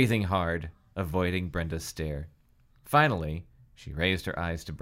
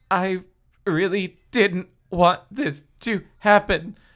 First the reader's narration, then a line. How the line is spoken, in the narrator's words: she said, speaking slowly, pronouncing each word carefully, forcing back the urge to start sobbing again